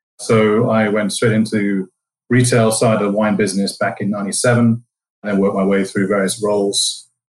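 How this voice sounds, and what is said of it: English accent. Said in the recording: “from the UK, as you can probably tell from my accent ... the English part of the United”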